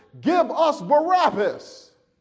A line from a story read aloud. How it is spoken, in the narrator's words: They shouted